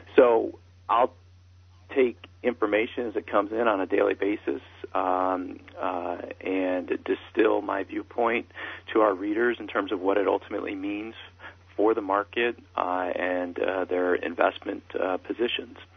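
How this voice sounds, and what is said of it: Strained, fading voice. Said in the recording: “I'm losing my voice these days”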